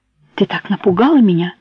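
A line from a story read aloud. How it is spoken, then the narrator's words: Excited, agitated explanation. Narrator (Russian): Взволнованно начал объяснять Альда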